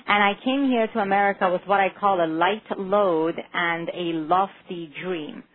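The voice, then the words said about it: Non-native English accent. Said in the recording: “you've picked up on my accent already, because 16 years ago I came to America with very little English and a very, very heavy accent”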